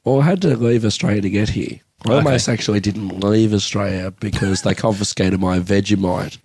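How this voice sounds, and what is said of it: Australian accent. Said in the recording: “I started from Australia just in case people couldn't figure out the accent.”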